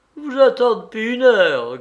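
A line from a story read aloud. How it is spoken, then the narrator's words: Shrill yelping. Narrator (French): glapissait madame Poissin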